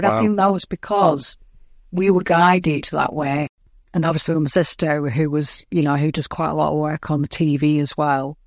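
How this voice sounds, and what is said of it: Lancashire northern English accent. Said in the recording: “Pakistani with a Lancashire accent”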